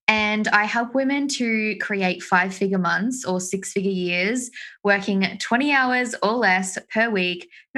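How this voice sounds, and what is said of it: Australian accent. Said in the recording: “If you can't tell from my accent, I am from Australia.”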